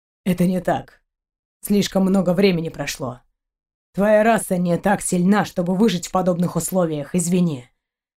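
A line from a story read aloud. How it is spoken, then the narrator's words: Muffled, dull. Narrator (Russian): глухо проговорил Шейн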